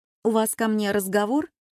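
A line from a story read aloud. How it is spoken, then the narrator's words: Sincere laughter. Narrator (Russian): Он искренне рассмеялся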